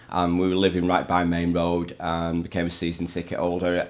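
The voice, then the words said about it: Slight Manchester twang. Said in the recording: “a little bit of my twang ... living in Manchester”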